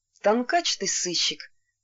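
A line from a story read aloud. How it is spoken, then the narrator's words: Bitter self-mocking laugh. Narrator (Russian): довольно горько посмеялся над собой Касьян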